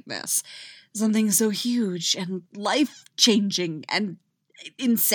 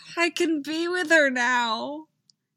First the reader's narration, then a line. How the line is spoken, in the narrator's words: Scott says dreamily